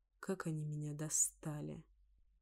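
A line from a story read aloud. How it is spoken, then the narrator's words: Weary groan. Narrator (Russian): Простонал Диар, устало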